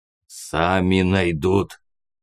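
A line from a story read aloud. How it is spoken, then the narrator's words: Effortful mutant growl. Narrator (Russian): старательно зарычал мутант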